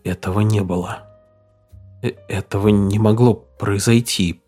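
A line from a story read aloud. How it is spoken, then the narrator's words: Barely audible. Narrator (Russian): произнес он еле слышно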